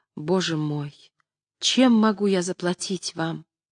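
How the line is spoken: Girl repeating gratefully. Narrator (Russian): девушка стала ласково обходиться со мной и все твердила

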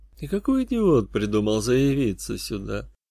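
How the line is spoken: Muttering under breath. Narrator (Russian): пробормотал под нос грешник

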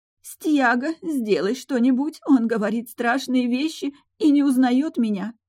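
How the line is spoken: Sobbing. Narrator (Russian): зарыдала она

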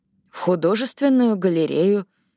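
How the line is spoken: Uncertain. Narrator (Russian): неуверенно закончила Робин

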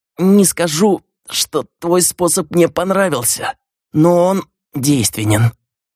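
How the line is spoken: Through gritted teeth, pained. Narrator (Russian): процедил Миклош, когда боль немного отступила

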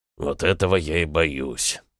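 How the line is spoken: Grumbling. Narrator (Russian): проворчал Сивков

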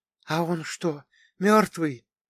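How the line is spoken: Whisper in ear. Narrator (Russian): шепнул мне на ухо Глаша

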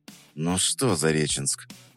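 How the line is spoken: Whisper. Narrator (Russian): прошептал я

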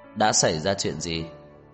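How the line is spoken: Cold voice from behind. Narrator (Vietnamese): Một giọng nói lạnh lùng từ phía sau truyền đến

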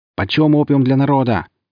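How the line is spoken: Shouting into a crowd. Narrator (Russian): выкрикнул в толпу увлекаемый мной Сергей

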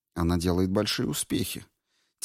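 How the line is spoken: Quiet. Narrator (Russian): тихо сказала гувернантка

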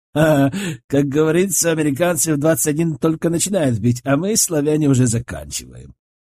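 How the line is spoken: Laughing. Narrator (Russian): рассмеялся Лешек

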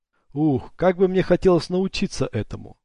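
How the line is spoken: Plain. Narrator (Russian): сказал Вэл

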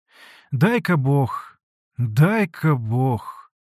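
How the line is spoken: Woman sighing. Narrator (Russian): вздохнула Аксинья Захаровна

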